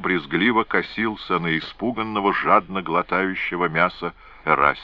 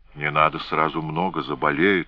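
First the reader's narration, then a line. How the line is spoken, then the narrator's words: Sighing. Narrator (Russian): вздохнула Моро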